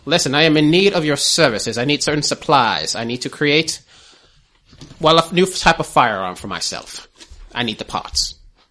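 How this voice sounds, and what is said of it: Put-on British accent. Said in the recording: “I went British there for a second”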